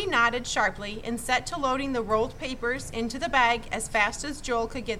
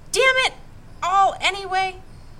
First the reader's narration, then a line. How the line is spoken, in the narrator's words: Joel cried